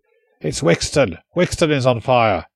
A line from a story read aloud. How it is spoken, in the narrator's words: he shouted, sounding not just shocked, but almost affronted, as if it was a personal insult